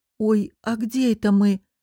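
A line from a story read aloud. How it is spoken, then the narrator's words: Hoarse rasp. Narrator (Russian): прохрипела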